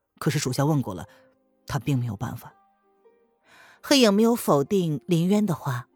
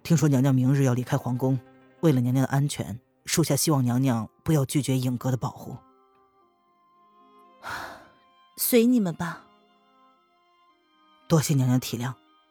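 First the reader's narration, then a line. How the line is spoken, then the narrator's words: Flat, detached. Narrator (Chinese): 黑影……淡淡的说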